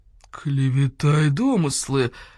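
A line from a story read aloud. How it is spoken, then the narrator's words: Dull growl. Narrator (Russian): глухо зарычал полкан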